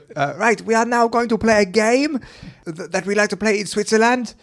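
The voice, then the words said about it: Random put-on foreign accent. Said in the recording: “you're going to excuse the accent because it's just going to be a random accent ... do your best Swedish”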